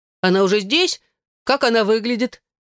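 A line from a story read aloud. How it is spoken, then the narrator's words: Shouted. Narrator (Russian): закричал Имон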